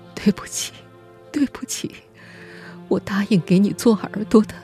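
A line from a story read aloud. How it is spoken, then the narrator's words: Tearful lament. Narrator (Chinese): 她总是对儿子哭诉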